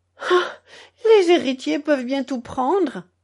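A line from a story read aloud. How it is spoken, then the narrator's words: Savage indignant outcry. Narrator (French): s'écria en se dressant dans un accès d'indignation sauvage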